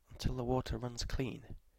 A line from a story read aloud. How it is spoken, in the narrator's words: murmured in confusion